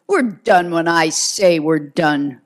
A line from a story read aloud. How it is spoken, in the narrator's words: McGivney snapped